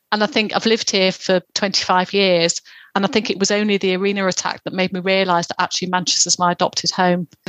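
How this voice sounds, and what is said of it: Southern English accent. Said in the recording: “as you can probably tell from my accent, I'm not originally from Manchester. I'm from the South.”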